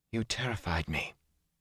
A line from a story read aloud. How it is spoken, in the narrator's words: she said in a tight voice